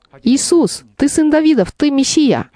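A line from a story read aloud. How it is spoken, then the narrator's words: Crying out. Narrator (Russian): Вартимей кричал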